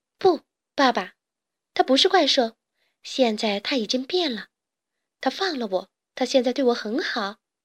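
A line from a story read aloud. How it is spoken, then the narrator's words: Smiling warm voice. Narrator (Chinese): 贝尔微笑着对爸爸说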